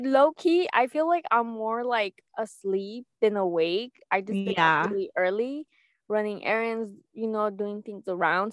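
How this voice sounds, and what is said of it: Stuffy, slightly sick-sounding voice. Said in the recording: “I feel like I'm all stuffed up too ... I sound a little sick ... it's most likely it's just allergies”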